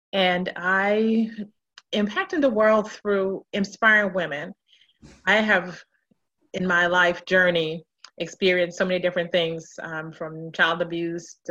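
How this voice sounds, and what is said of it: Jamaican accent. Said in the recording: “you'll hear my accent later. I'm a native of Jamaica, West Indies.”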